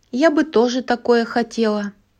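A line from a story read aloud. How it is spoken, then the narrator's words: Wistful sigh. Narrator (Russian): вздохнула Золушка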